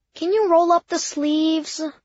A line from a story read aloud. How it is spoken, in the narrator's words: My voice sounded whiny